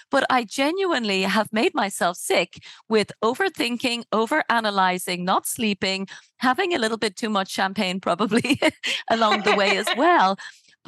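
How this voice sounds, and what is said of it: Husky, hoarse voice. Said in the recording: “You can hear my super sexy voice now because I've now got a throat infection.”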